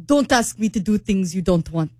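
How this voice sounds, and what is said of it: Put-on Russian accent. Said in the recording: “you're the Russian accent expert ... Oh, very good. ... That's not bad.”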